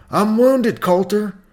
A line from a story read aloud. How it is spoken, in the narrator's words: Suddenly, cried out